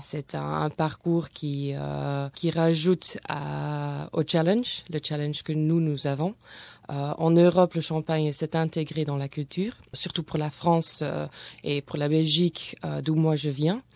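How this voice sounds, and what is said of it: Slight Belgian French accent. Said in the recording (French): “Il y a un petit accent.”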